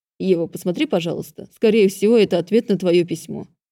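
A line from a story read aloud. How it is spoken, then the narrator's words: Muttered. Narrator (Russian): пробормотал он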